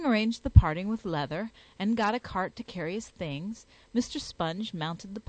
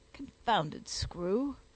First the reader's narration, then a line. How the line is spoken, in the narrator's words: muttered Sponge